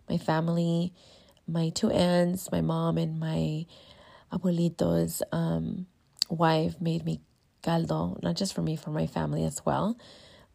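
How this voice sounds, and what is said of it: Sick-sounding voice. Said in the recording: “I'm sick, as you can tell in my voice.”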